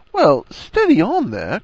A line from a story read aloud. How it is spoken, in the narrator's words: cried Harry, feeling unjustly maligned